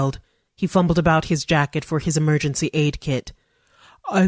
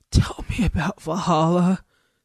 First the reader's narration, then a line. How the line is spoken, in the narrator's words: Goldie said in his treble rasp